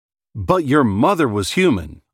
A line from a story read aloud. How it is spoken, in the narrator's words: I said